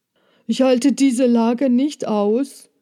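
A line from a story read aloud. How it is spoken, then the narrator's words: Calling. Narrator (German): rief er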